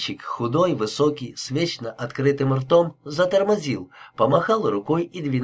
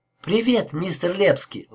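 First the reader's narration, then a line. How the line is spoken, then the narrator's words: Exclamation. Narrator (Russian): воскликнул Тед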